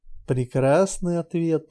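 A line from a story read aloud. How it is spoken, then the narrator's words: Purring. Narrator (Russian): промурлыкал Лой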